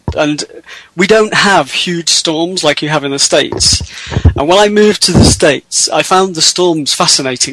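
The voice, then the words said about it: British accent. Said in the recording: “I'm from the UK originally. You can tell from my accent,”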